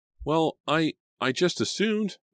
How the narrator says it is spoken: Selena stammered, not knowing what to say

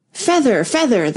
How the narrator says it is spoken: the sheep cried again

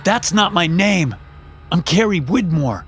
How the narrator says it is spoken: basically shouted at the man standing 3 feet away

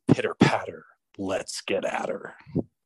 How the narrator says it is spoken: I sprang from the bed and whispered

